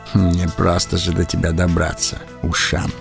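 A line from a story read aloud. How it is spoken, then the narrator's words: Muttered. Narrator (Russian): пробормотал мой хозяин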